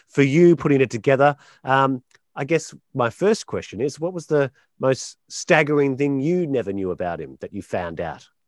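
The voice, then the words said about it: Non-local accent. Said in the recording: “as you probably can tell from the accent, not being from around here”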